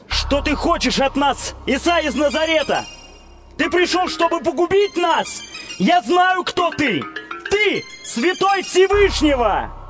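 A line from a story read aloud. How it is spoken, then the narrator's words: Sudden possessed man's shout. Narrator (Russian): человек, одержимый нечистым духом, который вдруг закричал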